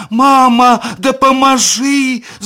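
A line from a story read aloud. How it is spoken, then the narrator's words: Small creature shouting. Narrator (Ukrainian): закричала маленькая воблачка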